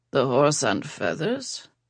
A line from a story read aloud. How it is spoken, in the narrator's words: Yash mumbled